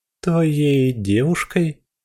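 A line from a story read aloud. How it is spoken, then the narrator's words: Stammering, losing confidence. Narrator (Russian): Викуля запинается, тут же теряя самоуверенности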